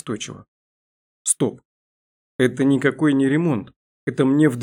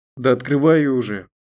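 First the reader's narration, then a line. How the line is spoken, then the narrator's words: Grumbling. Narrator (Russian): проворчала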